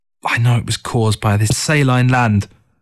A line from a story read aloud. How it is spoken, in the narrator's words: Through gritted teeth, she muttered